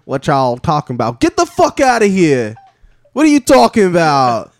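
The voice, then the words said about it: Put-on Texas accent. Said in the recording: “What if animals have accents? ... It's like a Texas pigeon. He's like”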